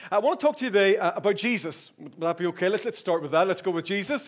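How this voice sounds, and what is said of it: Irish accent. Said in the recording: “the accent is Irish, okay? And as I get excited, I get faster.”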